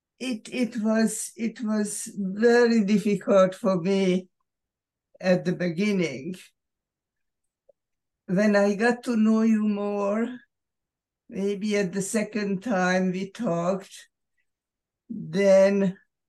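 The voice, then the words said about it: Speaks with a non-native accent. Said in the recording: “with my accent”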